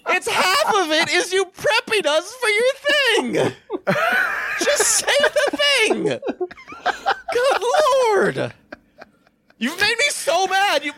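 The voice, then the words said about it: High-pitched, exasperated ranting. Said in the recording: “My voice has gone up an octave”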